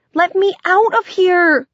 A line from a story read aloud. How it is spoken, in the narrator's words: Linda shouted